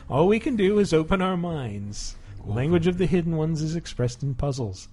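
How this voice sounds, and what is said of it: Vague Scandinavian accent, eerie. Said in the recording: “I know this is just an accent, but it sounds a lot like something specifically from Twin Peaks ... a vague Scandinavian accent ... it sounds like backward speech played back forward”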